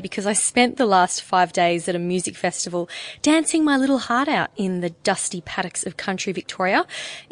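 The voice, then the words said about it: Croaky, hoarse voice. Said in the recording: “My voice is a little croaky today”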